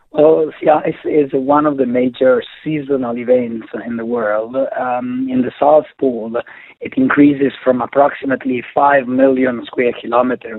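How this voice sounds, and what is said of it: Unusually low, weather-worn voice. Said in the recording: “sorry for my voice that is so low, but the weather has been quite inclement lately”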